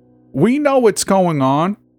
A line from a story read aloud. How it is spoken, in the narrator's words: screeched Patricia